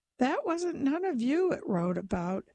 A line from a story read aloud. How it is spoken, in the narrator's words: laughed to show that he had been right all the time